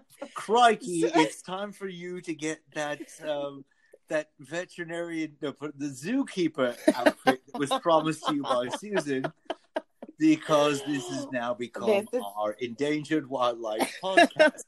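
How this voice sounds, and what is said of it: Bad put-on Australian accent. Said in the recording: “that was the worst Australian accent that ever was done ... Horrible ... It was okay at Crikey, and then it just devolved from there.”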